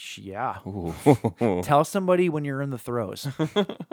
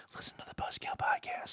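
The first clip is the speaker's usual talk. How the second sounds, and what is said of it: Whispering. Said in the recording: “whisper”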